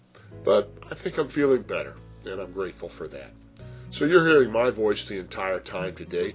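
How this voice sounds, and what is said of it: Hoarse voice from a cold. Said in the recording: “as you may detect, I have quite a cold ... my very hoarse voice”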